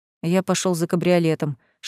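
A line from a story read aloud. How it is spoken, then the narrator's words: Whisper. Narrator (Russian): шепнул другу Фабиус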